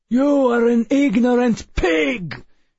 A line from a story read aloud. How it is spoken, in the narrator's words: Perplexus cried